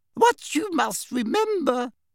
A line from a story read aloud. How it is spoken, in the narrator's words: said little Professor Flitwick squeakily